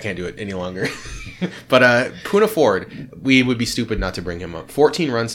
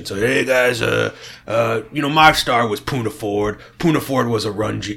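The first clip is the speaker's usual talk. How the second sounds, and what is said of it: Imitates another person's voice. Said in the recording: “he's doing his Brett impression.”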